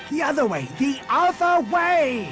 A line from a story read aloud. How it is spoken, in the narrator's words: screamed